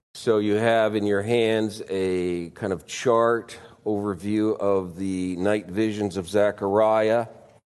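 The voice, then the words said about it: Congested voice from a cold. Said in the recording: “I have a cold this morning”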